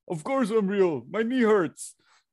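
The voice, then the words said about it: Imitates another person's voice. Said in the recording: “That was my impression of you.”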